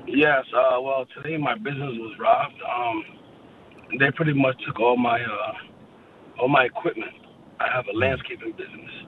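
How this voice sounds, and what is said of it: Hoarse, nearly lost voice. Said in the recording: “Please excuse my voice. I got sick and then I lost my voice.”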